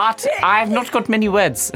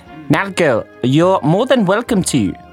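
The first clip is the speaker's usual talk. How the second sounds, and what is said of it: Put-on South African accent. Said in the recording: “I'm doing a South African accent, right?”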